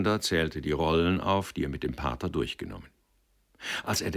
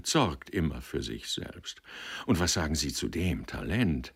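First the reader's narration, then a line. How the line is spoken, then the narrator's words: Moved murmur. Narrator (German): murmelte Stickler gerührt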